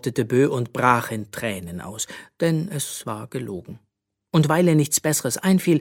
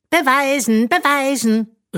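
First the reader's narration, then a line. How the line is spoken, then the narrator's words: Calling after someone. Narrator (German): rief ihr Magnesia hinterher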